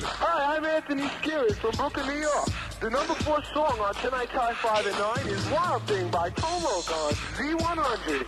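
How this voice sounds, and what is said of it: Strong regional accent. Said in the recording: “you've got such an accent there.”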